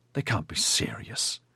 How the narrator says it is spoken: Ediard hissed

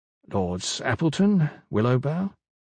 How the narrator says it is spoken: Quietly, said

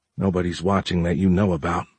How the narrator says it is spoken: Giles muttered

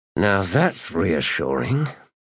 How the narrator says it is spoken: Skintik hissed under his breath

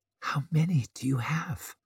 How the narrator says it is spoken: whispered Savine

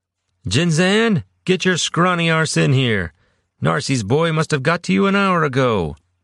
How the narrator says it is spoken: Kanan bellowed from the council table

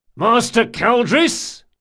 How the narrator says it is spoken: he bellowed

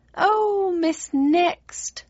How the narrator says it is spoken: she wailed, her spines bristling with vexation

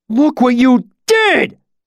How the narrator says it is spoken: Pike continued to howl above me

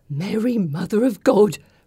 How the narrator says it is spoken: Bridget mumbles

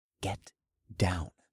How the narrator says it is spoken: I whispered as softly as possible

